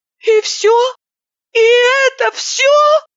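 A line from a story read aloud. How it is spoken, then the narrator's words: Bitter wail. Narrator (Russian): С горечью завопила я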